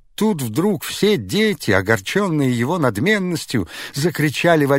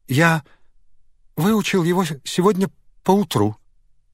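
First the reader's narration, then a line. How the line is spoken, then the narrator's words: Trembling voice. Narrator (Russian): дрожащим голосом сказал он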